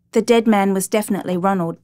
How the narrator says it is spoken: the brother said

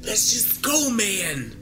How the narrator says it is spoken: Josh pressed

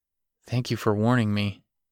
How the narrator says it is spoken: he muttered

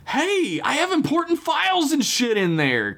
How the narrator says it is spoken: Kayla screamed out

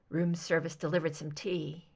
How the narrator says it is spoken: he murmured

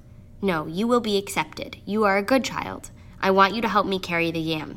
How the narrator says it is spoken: said the farmer

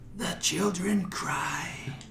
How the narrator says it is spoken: in a strange hissing voice, he says

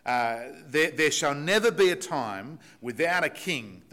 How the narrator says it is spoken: the people shout out

